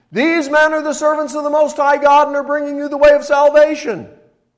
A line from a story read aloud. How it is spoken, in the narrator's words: the Philippian slave girl follows around yelling